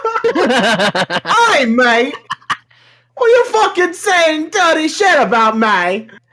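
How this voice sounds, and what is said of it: Put-on Cockney British accent. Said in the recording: “Comes in British. ... Not”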